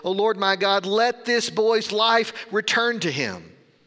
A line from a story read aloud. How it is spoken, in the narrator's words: cried out to the Lord